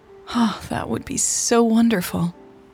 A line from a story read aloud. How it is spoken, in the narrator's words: Natalie sighed